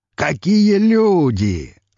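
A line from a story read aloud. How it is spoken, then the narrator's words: Joyful exclamation. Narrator (Russian): радостно воскликнул граф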